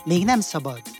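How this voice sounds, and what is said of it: Whispering. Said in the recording (Hungarian): “Suttogta”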